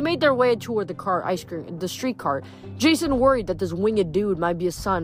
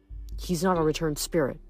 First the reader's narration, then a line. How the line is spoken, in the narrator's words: Nico murmured